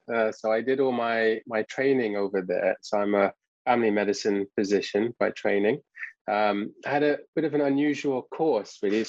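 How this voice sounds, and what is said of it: English accent. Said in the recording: “as you can probably tell from my accent, I'm from England”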